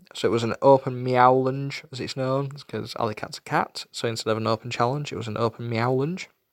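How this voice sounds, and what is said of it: Yorkshire accent. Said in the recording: “Said better with an American accent than my Yorkshire twang”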